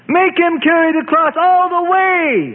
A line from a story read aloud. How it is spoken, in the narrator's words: An irate priest screamed